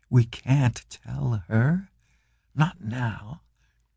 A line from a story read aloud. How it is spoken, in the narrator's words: Chang whispered